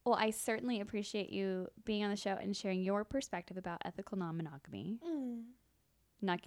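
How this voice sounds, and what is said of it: Polished radio announcer voice. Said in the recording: “my radio voice”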